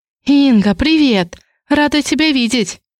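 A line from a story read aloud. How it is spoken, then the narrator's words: Joyful. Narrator (Russian): Радостно произносит она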